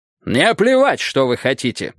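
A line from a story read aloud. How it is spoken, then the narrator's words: Harsh bark. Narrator (Russian): рявкнул Джонсон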